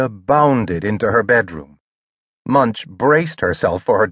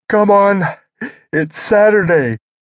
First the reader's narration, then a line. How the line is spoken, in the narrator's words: Munch yawned